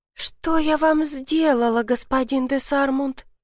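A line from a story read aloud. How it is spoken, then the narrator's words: Quiet question. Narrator (Russian): спросила тихо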